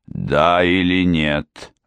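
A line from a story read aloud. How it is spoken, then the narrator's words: Roaring. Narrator (Russian): взревел Хью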